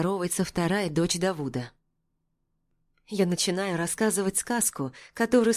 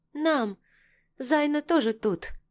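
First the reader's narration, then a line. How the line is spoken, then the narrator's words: Small child, gentle voice. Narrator (Russian): отзывается малышка своим нежным голоском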